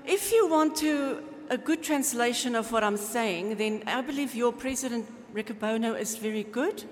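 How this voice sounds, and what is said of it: Speaks with a noticeable accent. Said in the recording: “my accent, or people here say my accent”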